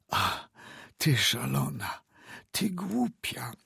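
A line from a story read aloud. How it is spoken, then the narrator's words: Whispering. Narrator (Polish): szeptał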